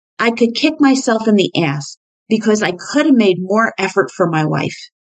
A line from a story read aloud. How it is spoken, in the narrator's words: Carl blurted out